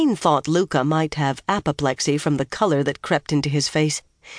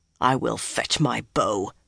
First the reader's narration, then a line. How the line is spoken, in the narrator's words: almost hissed